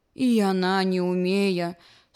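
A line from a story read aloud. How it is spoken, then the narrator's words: Sad tortoise. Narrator (Belarusian): сумна сказала чарапаха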